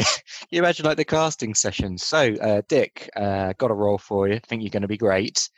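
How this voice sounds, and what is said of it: Usual voice. Nothing is said of it.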